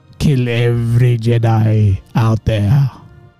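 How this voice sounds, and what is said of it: Impression of Senator Palpatine. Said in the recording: “my impression of Senator Palpatine. Tell me if it's good. ... It's probably not good. It's probably terrible.”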